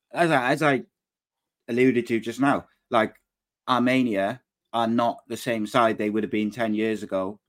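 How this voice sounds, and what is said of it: Manchester accent. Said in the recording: “It's my Manchester accent.”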